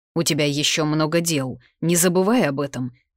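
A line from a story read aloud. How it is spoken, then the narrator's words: Displeased grumble. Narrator (Russian): недовольно проворчал Дехан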